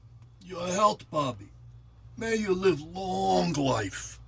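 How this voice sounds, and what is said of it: Eastern European accent. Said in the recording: “His accent is Eastern European, maybe Mediterranean.”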